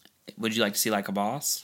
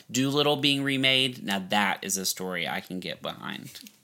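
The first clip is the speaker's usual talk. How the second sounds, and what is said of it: Sarcastic delivery. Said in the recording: “I'm being sarcastic.”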